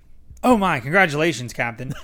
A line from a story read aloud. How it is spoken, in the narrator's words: the man exclaimed